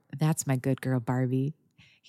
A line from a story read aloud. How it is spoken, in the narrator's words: From what felt like miles away, she heard murmur